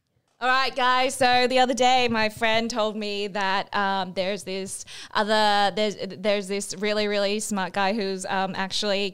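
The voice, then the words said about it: Imitates a Twitch streamer's voice. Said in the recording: “your impersonation of a Twitch streamer”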